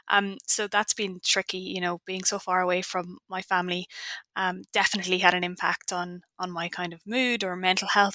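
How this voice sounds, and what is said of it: Irish accent. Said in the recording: “you can probably tell by now that I have an Irish accent.”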